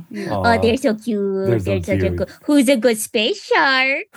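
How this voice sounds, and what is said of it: Cooing baby voice. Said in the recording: “coddling them with my baby voice”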